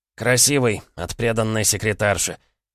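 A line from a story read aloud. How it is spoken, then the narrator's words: Snorted. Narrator (Russian): хмыкнул Ожогин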